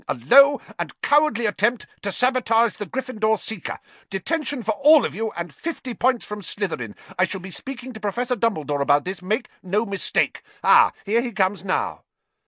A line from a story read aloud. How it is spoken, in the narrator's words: she was shouting